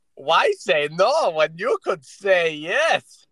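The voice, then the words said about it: Badly done put-on foreign accent. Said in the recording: “What kind of accent was that supposed to be? ... That was supposed to be Middle Eastern. ... I thought you were doing like a 1950s Japanese accent or something. ... I just think you're bad at doing accents.”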